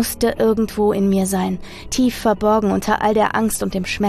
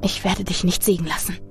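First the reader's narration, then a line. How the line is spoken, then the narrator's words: Whispered. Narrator (German): flüsterte ich in die Finsternis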